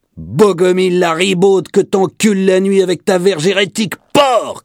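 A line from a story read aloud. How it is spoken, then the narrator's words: Cook shouting. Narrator (French): cria le cuisinier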